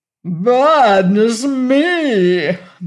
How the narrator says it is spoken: moaned the Rack

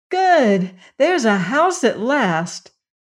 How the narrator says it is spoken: cried Ojo

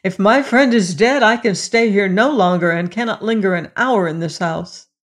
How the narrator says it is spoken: the king's son sprang up and cried

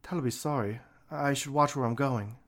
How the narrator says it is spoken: Althea mumbled

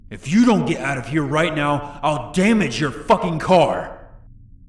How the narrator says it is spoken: He then screamed

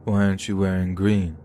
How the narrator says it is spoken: he asked me, slurring his words as he did so

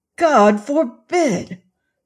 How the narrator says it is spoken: cried I

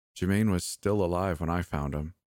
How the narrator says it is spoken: she said

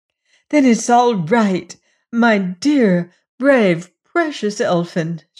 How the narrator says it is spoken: she cried

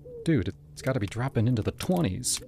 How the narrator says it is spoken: I muttered

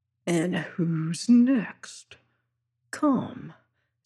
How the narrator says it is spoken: says he softly

